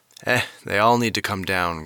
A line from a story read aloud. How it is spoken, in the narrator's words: grunted Gus